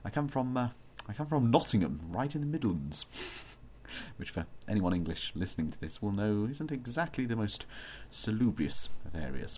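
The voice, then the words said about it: Posh English accent. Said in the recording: “I live in Durham in England, as you might well tell. Apparently I have a very posh accent, people tell me.”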